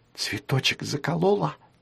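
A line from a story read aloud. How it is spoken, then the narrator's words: Whispered. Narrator (Russian): прошептала Фиа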